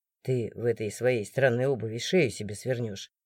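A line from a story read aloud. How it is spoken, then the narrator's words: Grumbling. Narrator (Russian): проворчал страж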